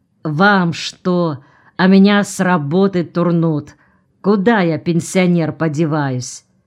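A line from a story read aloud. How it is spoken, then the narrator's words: Displeased grumble. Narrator (Russian): недовольно буркнул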